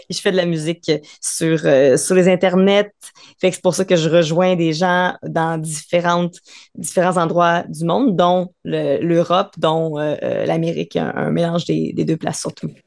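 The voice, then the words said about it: Light Québécois French accent. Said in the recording (French): “vous avez peut-être remarqué par mon léger accent québécois que je suis effectivement pas de France”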